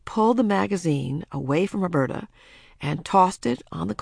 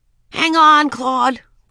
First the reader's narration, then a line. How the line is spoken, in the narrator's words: cried Ramona